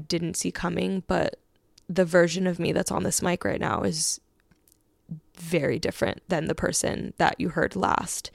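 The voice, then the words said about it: Emotional voice, cracking near tears. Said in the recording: “I'm not gonna cry. That's not my voice cracking, is it?”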